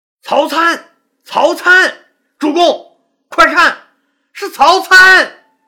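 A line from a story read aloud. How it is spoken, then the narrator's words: Surprised joyful shout. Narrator (Chinese): 樊哙惊喜的喊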